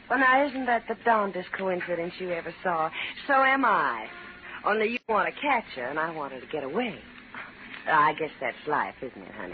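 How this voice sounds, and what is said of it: Woman's southern accent. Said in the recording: “a nasty little gun in the hand with a southern accent”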